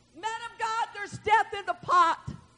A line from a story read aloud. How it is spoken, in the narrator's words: they cried out